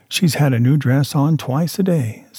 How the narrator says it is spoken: said my wife

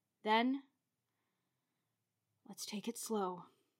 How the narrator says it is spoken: I muttered as I attempted to control myself

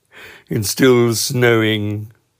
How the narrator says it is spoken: said Eeyore gloomily

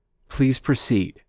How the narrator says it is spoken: responded firmly

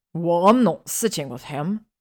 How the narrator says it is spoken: Ron snapped

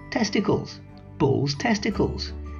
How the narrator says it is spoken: added, laughing brusquely

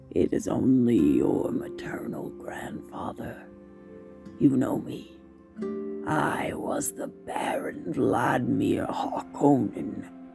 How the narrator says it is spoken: the basso voice rumbled

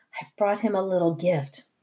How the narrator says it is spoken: whispered

